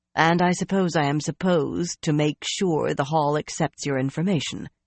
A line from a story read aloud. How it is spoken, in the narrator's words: she said gruffly